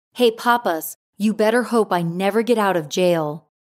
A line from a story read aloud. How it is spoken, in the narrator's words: Texiera as shouting